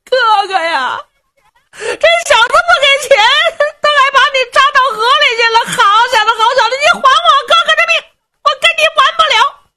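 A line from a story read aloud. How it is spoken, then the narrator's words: Helmsman crying. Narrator (Chinese): 这个掌舵的就哭了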